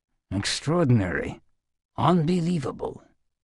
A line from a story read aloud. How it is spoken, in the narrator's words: murmured the imam into his pointed beard